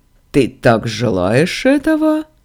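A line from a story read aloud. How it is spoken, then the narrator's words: Mocking question. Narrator (Russian): насмешливо спросил голос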